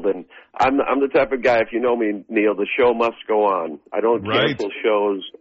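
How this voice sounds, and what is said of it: Weakened voice, still recovering. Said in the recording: “My voice is starting to come back ... sing through a cold”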